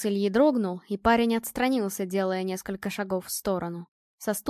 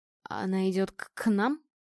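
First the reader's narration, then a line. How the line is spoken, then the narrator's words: Hoarse stammering question. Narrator (Russian): сиплым, заикающимся голосом спросил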